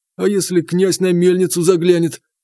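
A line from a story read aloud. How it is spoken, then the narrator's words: Trembling question. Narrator (Russian): дрожащим голосом спросил мельник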